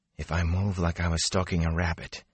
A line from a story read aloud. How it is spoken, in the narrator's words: he whispered to himself